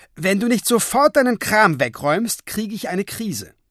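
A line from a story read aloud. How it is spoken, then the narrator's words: Loud. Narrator (German): sagte sie dann laut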